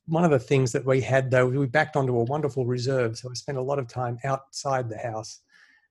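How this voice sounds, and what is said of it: Australian accent. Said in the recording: “I don't think you're American, judging by the accent ... I grew up in Sydney, Australia”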